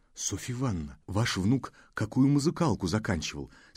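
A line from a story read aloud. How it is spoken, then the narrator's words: Whispered question. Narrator (Russian): спросил он шепотом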